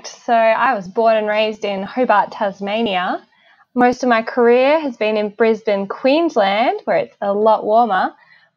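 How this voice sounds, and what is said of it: Australian accent. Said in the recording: “you sound Australian,”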